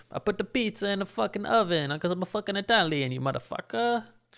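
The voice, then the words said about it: Bad put-on Italian accent. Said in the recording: “It's the worst accent I've ever done ... an Italian accent”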